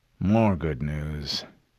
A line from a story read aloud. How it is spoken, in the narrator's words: he grumbled